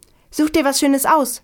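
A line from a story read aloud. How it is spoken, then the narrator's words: Beaming call. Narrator (German): rief strahlend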